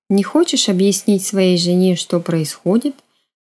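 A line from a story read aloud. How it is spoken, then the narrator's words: Calm question. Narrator (Russian): так же спокойно спросила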